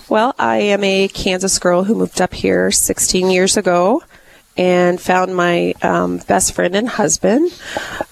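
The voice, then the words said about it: Sick, slightly messed-up voice. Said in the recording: “I got the stuff, so my voice is a little messed up ... this is not the way she normally sounds”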